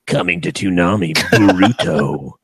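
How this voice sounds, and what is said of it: Dramatic TV announcer voice. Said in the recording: “Do my Toonami voice.”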